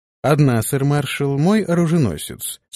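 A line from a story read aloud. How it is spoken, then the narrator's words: Calm reply. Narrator (Russian): спокойно ответил Антон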